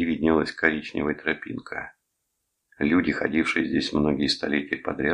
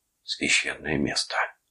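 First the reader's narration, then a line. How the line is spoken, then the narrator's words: Whisper. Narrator (Russian): прошептал Дженнингс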